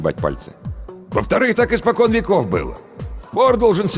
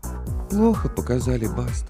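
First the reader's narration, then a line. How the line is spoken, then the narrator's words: Glum witch. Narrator (Russian): уныло ответила ведьма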